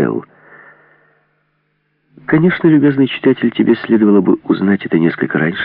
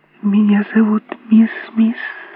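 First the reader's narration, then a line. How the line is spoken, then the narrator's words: Quiet shy babble, little girl. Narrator (Russian): тихо пролепетала малютка с нежной стыдливостью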